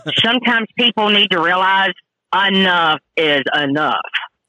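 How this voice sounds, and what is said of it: Exaggerated hillbilly twang. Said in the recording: “I said that with my major hillbilly twang”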